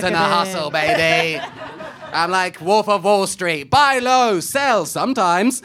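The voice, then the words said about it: Imitates another person's voice. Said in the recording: “That's a good impression. A really good impression.”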